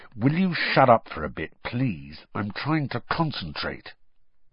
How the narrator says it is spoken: Harry said through gritted teeth

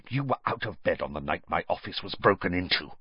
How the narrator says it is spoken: Snape hissed

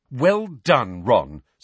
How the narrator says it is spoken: snapped Hermione

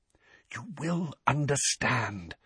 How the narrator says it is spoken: whispered Dumbledore

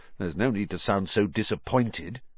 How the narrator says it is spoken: he said grimly

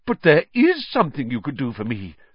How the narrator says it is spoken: said Nick excitedly

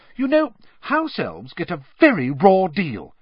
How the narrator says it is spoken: said Hermione indignantly

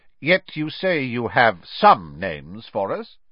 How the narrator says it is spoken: said Mr

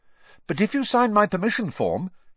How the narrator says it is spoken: Harry went on quickly

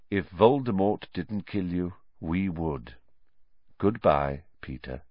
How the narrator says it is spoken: said Lupin quietly

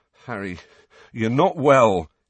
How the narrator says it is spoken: said shakily

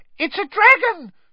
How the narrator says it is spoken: shrieked one of the first years, losing her head completely

